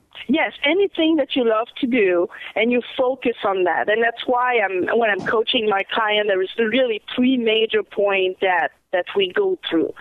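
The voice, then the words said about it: Strong French-Canadian accent. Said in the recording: “my big French-Canadian accent.”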